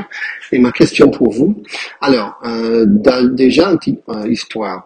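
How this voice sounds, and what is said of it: American accent speaking French. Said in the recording (French): “je suis américain, vous pouvez entendre mon accent bien sûr”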